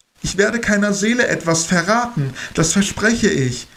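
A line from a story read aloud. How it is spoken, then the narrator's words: Urgent call. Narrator (German): rief ich eindringlich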